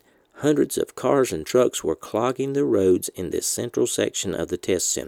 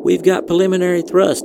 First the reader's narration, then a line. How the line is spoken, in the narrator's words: Ivanchenko yelled into the microphone